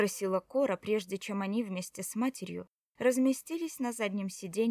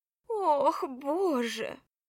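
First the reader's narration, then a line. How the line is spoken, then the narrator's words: Loud sob. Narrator (Russian): Она шумно всхлипнула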